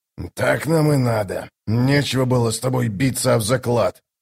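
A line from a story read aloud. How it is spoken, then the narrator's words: Grumbling. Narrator (Russian): проворчал Драсти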